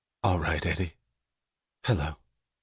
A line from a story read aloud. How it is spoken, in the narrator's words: She smiled, gently and confidently, in understanding, in dismissal of all problems, and said